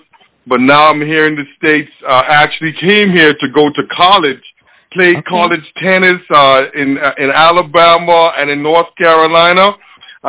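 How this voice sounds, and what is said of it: Bahamian accent. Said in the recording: “that beautiful accent that you're hearing now ... I was born and raised in Nassau, Bahamas”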